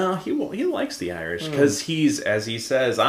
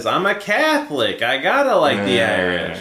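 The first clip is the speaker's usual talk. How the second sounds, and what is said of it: Imitates another person's voice. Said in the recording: “That was my best Jimmy impression.”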